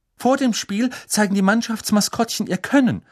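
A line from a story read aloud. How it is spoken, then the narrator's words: Reading aloud. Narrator (German): las sie laut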